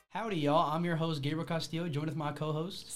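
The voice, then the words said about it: Put-on cowboy accent. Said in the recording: “Can you go back to your regular voice? ... He's taking the cowboy role a little too far. ... Why are you speaking with that accent?”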